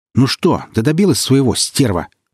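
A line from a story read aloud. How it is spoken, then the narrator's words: Shouted. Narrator (Russian): крикнул Молич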